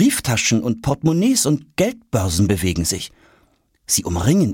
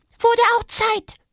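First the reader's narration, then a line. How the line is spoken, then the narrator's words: Squeaky peep. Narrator (German): piepst die andere Stimme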